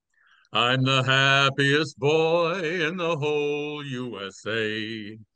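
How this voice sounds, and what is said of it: Sings country lyric in deep voice. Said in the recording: “new celebrity impersonation ... The country singer Donna Fargo ... That's a deep voice”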